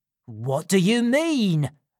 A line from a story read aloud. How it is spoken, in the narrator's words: screamed Fagin